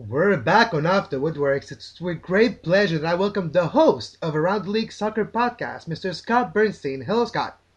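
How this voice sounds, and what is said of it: Speaks with a noticeable accent. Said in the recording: “I love the accent”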